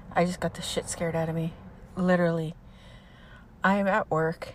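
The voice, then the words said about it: Breathless, out-of-breath speech. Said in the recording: “Sorry, I'm out of breath.”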